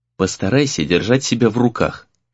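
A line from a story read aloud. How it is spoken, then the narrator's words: Quiet. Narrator (Russian): тихо сказал Рэй Сагюнара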